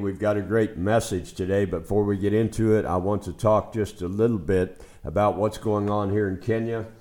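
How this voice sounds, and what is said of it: Hoarse, froggy voice. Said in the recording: “Pardon my voice today. I'm a little bit froggy today. ... I got drenched in rain a few days ago”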